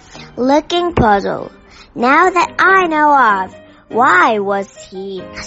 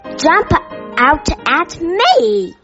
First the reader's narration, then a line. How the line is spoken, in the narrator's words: exclaimed Mr